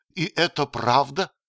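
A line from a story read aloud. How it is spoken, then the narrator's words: Exclaiming. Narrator (Russian): воскликнула она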